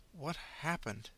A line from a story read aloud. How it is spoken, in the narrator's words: mumbled